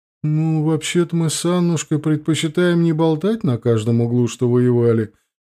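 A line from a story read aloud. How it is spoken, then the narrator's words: Sad smile, old woman. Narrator (Russian): печально улыбнулась бабушка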